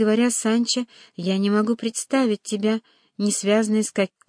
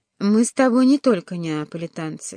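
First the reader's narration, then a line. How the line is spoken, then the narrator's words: Plain. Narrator (Russian): сказал Альфонсо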